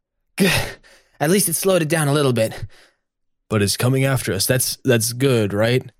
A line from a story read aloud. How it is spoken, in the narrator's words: Harry, between wheezing breaths, says